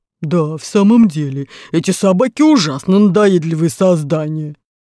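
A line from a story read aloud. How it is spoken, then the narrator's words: Low muffled bass. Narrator (Russian): Ганнибал поддержал его глухим баском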